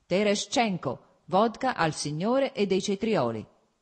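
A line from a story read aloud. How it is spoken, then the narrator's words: Self-pleased shout. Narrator (Italian): gridò, evidentemente compiaciuto ad ascoltare la propria voce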